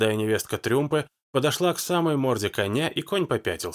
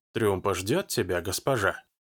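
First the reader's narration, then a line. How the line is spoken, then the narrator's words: Woman's quiet voice. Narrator (Russian): тихо, как всегда, сказала женщина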